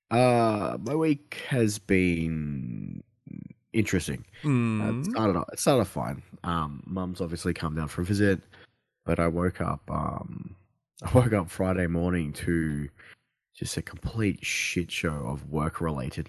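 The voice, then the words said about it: Deep, croaky sick voice. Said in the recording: “my voice is all deep and croaking ... As I'm fucking sick”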